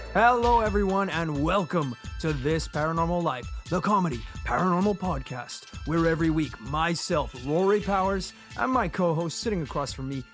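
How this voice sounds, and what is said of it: Lower, bassier, thicker hoarse voice. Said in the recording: “I got my sexy voice on this week... it's a little lower than usual. It's a little bassier than usual. It's a little thicker.”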